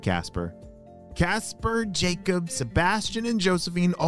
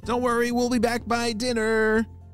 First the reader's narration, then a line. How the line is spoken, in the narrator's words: shouted Josephine